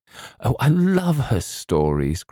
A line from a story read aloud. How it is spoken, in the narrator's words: cried the girl